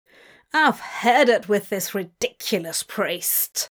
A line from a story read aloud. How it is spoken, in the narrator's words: a man growl